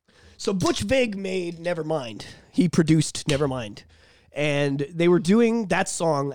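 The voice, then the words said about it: Emotional, choked-up voice. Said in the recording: “I'm getting choked up ... I'm actually getting choked up about this a little bit”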